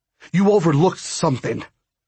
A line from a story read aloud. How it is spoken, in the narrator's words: growled